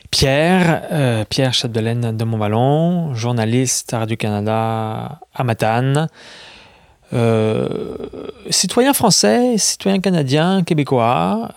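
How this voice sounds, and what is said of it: French accent, not regional. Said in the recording (French): “le même accent que moi, je pense. Un accent français, pas vraiment régional. Un accent français.”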